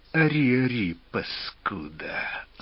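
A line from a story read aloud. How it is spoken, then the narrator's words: Angry, through gritted teeth. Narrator (Russian): зло процедил сидящий справа от расписного Катала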